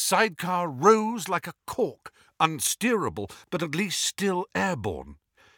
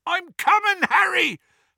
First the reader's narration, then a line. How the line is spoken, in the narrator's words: Hagrid yelled from out of the darkness